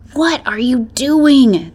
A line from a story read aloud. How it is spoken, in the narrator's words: the beta hissed